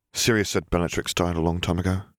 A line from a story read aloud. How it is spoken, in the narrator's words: Harry murmured